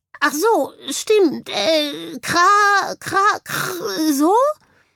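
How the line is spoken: Bird croaking. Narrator (German): krächzte daraufhin der Vogel

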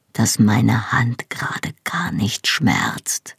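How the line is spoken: Soft reply. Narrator (German): antwortete er leise

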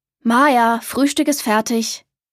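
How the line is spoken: Grandfather calling. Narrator (German): rief Opa

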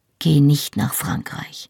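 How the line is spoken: Quiet. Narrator (German): sagte ich leise

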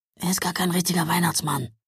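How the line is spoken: Whisper. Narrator (German): flüsterte er

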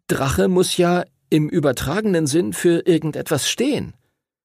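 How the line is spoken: Stuttering. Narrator (German): stotterte Edward

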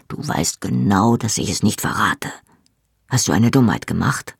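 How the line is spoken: Quiet. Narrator (German): sagte Jamie leise

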